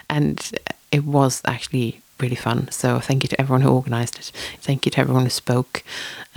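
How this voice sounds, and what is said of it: Tired, slightly raspy voice. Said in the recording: “I am quite tired ... my throat is feeling a bit raspy”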